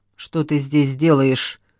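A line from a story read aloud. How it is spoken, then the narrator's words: Stern question. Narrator (Russian): строго спросил служанку хозяин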